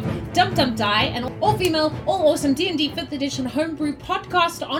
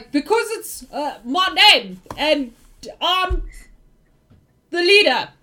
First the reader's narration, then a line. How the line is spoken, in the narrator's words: you hear Joe shouting